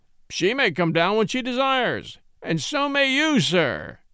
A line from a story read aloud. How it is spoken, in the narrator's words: roared Austin stormily